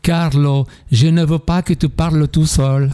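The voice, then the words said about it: Imitated Italian accent. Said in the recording (French): “Avec l'accent italien.”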